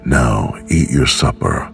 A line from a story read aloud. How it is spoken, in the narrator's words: he said